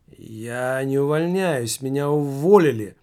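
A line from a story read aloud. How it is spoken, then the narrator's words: Loud. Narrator (Russian): громко произнес Немаркетинг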